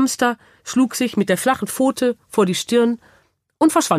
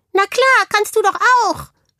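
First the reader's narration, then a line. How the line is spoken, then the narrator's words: Hamster calling from bag. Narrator (German): rief der Hamster aus dem Ranzen heraus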